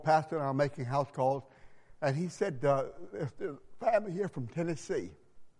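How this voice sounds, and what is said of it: Southern American accent. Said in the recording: “she heard my accent. She said, you're from the South.”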